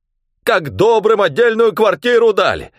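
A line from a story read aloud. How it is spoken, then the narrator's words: Senseless distant shouting. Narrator (Russian): Вовсе уже бессмысленно кричал он оттуда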